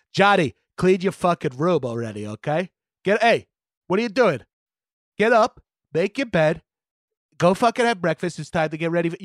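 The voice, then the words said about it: Lower-pitched trashy Long Island accent. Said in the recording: “a slight tilt of my dad's actual voice ... Like a trashy septimy guy from Long Island ... Octave down”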